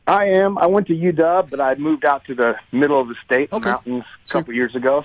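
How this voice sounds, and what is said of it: Hoarse, worn-out voice. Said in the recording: “my voice is a little shot”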